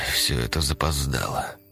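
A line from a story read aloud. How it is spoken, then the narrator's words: Quiet sigh. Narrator (Russian): вздохнул Лебедев негромко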